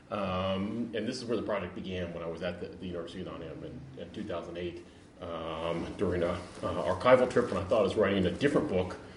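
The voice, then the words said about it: American accent. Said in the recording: “as you probably gathered from my accent, I'm an American”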